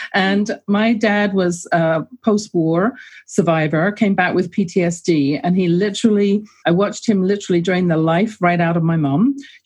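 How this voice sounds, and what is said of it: English accent. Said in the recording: “I grew up in England, as you can tell from my accent... I love the accent.”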